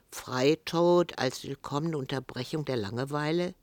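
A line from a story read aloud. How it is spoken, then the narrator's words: Dry question. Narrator (German): Franz fragte trocken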